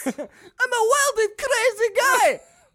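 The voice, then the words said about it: Imitates another person's voice. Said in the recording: “Your voice just changed ... You don't like early SNL?”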